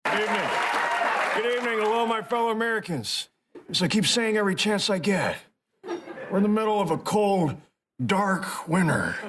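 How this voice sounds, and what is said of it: Poor impression of Joe Biden. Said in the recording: “the awful Biden impersonator”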